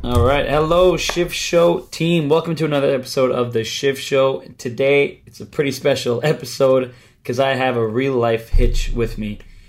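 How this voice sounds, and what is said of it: Sick-sounding voice. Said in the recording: “excuse my voice ... I was very sick at the time”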